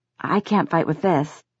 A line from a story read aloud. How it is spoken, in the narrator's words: Jace said, trying to sound as quavering and nervous as he could